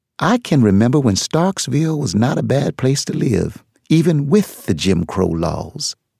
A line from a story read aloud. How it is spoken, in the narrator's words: Nana Mama said wistfully